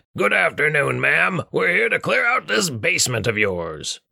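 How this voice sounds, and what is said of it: Raspy, grunting dwarf character voice. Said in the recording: “grunted in his raspy, dwarven voice”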